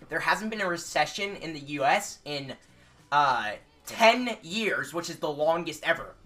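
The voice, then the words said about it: Imitates another person's voice. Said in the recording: “my impression of Nick”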